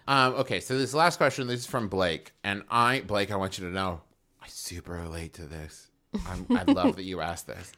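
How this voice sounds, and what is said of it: Calm public-radio announcer voice. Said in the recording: “He put his NPR voice on for you.”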